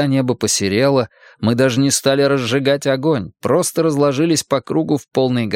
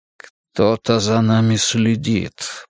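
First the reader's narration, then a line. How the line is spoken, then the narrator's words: Grumbled. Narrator (Russian): проворчал Ндели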